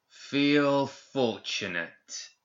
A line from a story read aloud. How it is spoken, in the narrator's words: a man said in a strangely guttural voice